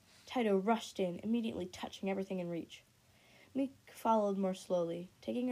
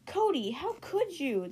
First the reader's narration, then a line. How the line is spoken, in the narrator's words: the leafwing gasped